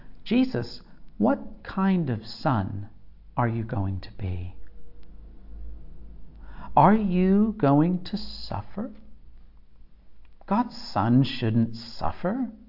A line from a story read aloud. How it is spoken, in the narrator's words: whispers